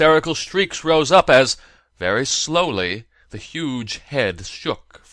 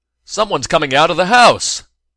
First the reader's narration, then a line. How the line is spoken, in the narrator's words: shouted one of the closest onlookers